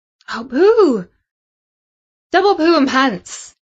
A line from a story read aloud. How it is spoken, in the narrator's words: exclaimed Samantha, because that news just about rounded off the worst Friday ever for her